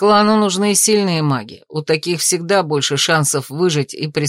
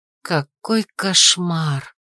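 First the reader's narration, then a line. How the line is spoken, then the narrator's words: Muttered. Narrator (Russian): пробормотала Рея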